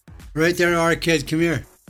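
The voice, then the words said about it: Attempted Manchester accent. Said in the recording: “Was that your best Manc accent?... at least try and sound like you're from Manchester”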